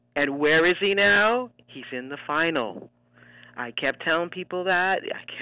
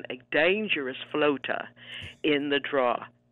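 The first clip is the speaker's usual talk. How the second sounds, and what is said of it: Put-on British accent. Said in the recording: “I'm going to say this in a British accent”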